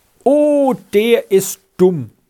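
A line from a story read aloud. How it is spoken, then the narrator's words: Called out. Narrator (German): rief Rita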